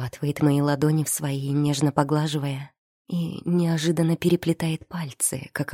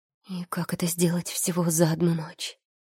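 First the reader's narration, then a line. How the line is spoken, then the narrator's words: Nervous whisper. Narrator (Russian): Выдаю шепотом от волнения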